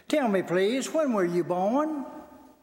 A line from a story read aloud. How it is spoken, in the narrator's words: looking kindly at the trembling musician for a few minutes, Toscanini then asked pleasantly